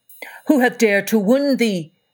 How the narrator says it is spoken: cried the giant

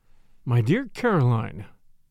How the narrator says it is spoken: I said irritably

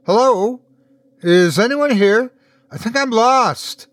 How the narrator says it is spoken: she shouted as she ran

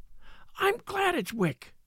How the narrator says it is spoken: she cried out in a whisper

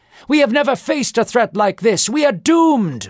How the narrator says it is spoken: more of them exclaimed

